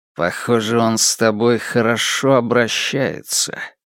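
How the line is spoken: Strange tone. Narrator (Russian): произнес Пин странным тоном

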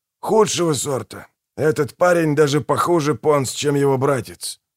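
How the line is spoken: Grumbled. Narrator (Russian): буркнул Манфред

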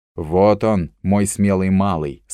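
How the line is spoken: Plain. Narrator (Russian): сказал Дик

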